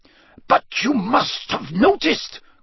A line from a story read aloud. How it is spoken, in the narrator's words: Karkaroff began in an agitated voice